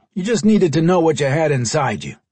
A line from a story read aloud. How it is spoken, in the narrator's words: Henry replied in a gruff tone